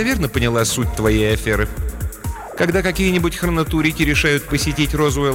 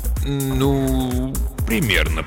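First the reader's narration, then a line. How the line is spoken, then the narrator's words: Mumbled. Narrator (Russian): пробормотал Смидли Фейвершем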